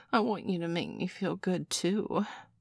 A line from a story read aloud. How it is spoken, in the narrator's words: Nurse Joy whined